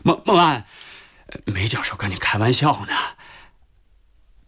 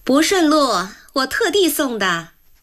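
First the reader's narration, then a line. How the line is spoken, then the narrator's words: Sudden, loud. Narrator (Chinese): 梅一朵突然在一边大声说着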